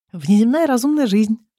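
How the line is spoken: Happy announcement. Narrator (Russian): радостно сообщаю я

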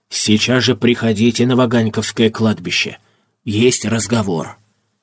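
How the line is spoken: Whisper in the ear. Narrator (Russian): шепнул ему на ухо

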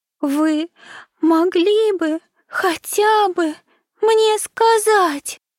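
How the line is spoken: Sobbing. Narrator (Russian): всхлипывала она

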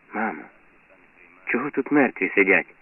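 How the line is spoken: Boy whispering. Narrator (Ukrainian): шепотить хлопець

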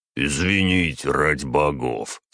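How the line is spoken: Conciliatory tone. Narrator (Russian): сказал примирительным тоном

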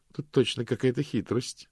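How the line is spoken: Plain. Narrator (Russian): сказала госпожа Ласка

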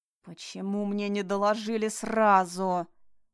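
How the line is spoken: Growling. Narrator (Russian): прорычал Таир

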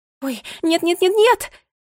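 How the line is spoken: Panicked scream. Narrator (Russian): закричала Бунтесса в панике

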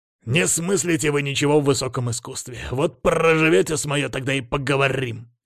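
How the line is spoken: Smirking raven. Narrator (Russian): хмыкнул ворон

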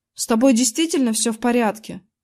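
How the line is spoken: Plain. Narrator (Russian): спросил я

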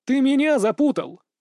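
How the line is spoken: Laughing. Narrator (Russian): засмеялся Андрей

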